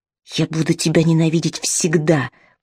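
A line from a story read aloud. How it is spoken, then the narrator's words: Hiss. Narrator (Russian): прошипел он ей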